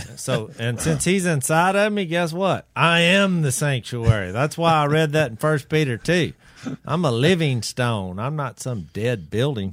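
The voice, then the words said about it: Raised, excited, preachy voice. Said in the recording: “you're raising your voice ... I'm getting excited ... You're getting a little bit preachy”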